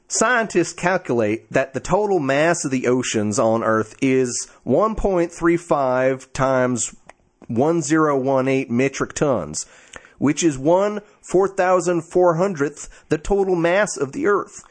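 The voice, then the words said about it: Put-on Southern accent. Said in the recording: “Should I do my Southern accent?”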